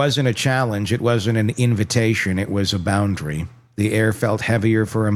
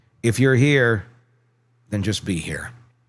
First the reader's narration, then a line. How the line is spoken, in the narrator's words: said calmly